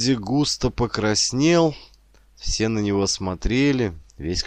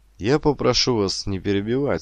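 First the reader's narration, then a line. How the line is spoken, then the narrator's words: Calm command. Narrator (Russian): спокойно приказал директор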